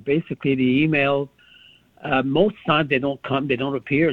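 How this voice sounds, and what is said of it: Speaks with a noticeable accent. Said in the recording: “You have such a nice accent.”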